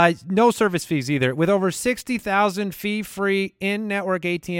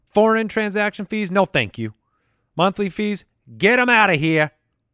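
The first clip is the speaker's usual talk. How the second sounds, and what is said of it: Put-on New York accent. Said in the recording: “That was a little bit of a New York accent.”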